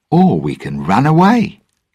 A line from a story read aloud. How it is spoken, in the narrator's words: Jack answered brightly